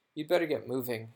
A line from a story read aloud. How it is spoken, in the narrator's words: said Ron